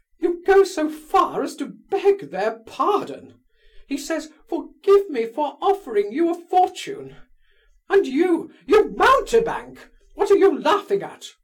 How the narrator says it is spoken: she cried, turning suddenly on Lebedev's nephew

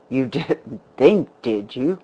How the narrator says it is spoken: the man laughed bitterly

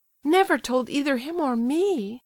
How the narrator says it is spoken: cried Aglaya

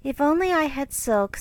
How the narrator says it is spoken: sighed Meg

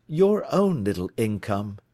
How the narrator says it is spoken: he asked

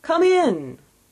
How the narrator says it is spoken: exclaimed the ghost

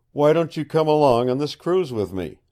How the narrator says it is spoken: said

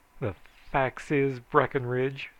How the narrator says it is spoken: said Joel

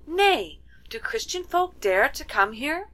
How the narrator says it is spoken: cried the second princess

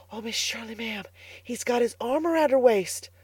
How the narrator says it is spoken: whispered Carlotta the Fourth delightedly

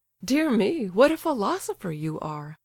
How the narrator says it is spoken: laughed the prince

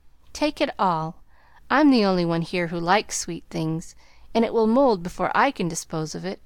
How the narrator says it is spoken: answered Amy, thinking with a sigh

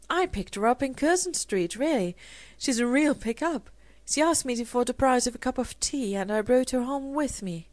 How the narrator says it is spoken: Rosemary, laughing, said

